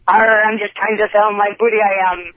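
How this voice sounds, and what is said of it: Put-on pirate accent. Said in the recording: “Can we hear your pirate accent? ... It sounds an awful lot like a bad Irish accent”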